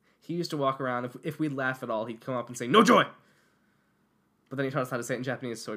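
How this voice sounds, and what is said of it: Usual voice. Nothing is said of it.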